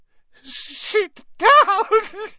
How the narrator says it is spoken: he wailed

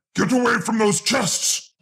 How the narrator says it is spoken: Darunia roared

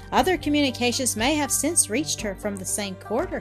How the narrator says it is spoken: he said

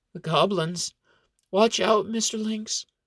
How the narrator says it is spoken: Xena wavers in and out of consciousness and moans

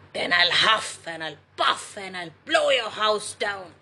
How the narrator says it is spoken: yelled the wolf

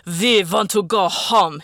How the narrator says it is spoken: he bellowed

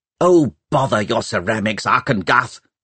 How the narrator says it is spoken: snapped Pomeroy

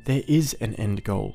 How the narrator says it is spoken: Alyssa said

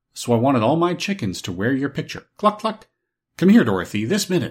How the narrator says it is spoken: she cried

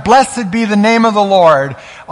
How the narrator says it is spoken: shouted

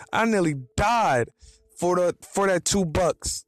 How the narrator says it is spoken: he yelled

